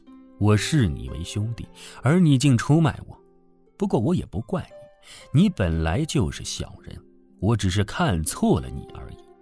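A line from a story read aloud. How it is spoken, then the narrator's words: Laughing. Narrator (Chinese): 刘在笑道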